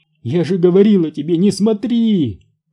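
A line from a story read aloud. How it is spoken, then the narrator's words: Shouting while crying. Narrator (Russian): кричала она, размазывая по лицу слезы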